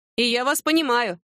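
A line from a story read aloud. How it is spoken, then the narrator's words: Laughing. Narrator (Russian): засмеялась Люба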